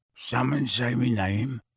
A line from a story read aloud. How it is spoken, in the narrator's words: Mundungus mumbled sleepily